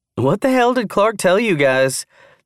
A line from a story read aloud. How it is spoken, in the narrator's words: Tara laughed, amused by their unusually concerned attention